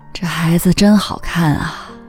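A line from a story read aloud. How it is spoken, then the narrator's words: Old woman murmuring. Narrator (Chinese): 刘奶奶喃喃念叨着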